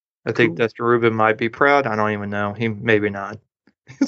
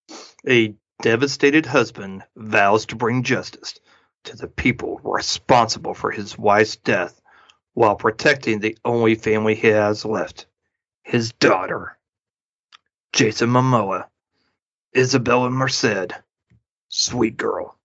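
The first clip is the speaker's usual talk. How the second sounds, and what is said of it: Dramatic movie trailer narrator voice. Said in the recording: “trailer voice, movie trailer voice.”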